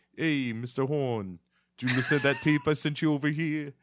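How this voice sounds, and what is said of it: Put-on comic accent. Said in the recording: “we're carrying this accent through. It's the best thing ever.”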